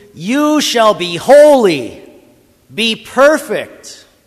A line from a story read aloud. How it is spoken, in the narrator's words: he yells at you